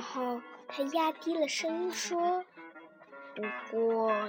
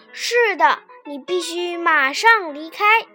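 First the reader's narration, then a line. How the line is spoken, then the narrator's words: Loud. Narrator (Chinese): 另一个士兵大声说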